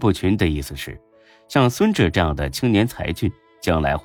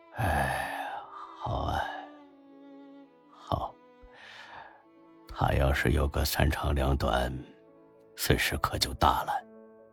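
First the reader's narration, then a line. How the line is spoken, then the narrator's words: Long sigh. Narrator (Chinese): 吕不群长长的叹了口气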